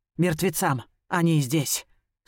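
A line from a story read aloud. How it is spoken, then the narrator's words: Grim, funereal tone. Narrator (Russian): Слова звучат мрачно, как церковный колокольный звон, возвещающий о похоронах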